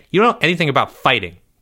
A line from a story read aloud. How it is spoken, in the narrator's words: Jeffrey snapped